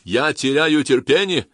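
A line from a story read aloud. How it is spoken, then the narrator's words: Male shout over engine noise. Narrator (Russian): Сквозь визг вертолетного двигателя мужской голос крикнул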